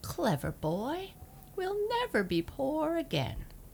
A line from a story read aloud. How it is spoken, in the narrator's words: she laughed